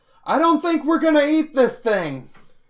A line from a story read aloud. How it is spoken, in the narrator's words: Bosch yells back to Flint